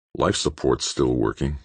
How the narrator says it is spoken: Grant muttered

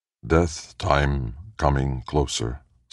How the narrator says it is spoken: said Mx, flatly, emotionlessly

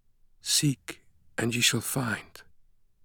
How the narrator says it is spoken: the voice of the silver-haired woman kept whispering

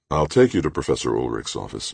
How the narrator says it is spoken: McClintock said

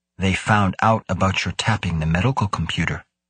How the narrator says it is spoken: Muzorawa said softly

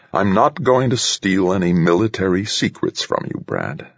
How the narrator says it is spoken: answered Carlotta Harriman Scheib coolly

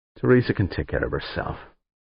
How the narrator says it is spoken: Frowning, Dan muttered

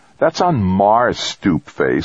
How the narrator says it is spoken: older brother snapped

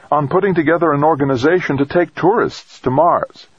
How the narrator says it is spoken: his assistant replied eagerly

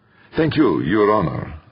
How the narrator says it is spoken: said the prosecutor

